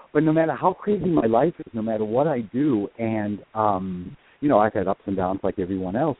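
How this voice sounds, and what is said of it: Boston accent. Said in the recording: “I'm originally from Boston, as you can hear the Boston accent”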